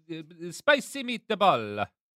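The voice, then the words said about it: Put-on Italian accent. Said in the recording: “I will generally say you in an Italian accent.”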